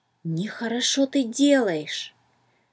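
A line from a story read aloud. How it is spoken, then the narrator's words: Whisper in ear. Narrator (Russian): словно шепнул кто-то на ухо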